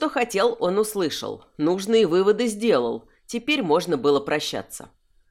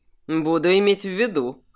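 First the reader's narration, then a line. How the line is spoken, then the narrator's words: Snorting. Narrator (Russian): хмыкнул Кирсан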